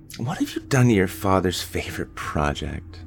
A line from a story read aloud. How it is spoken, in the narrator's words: sighed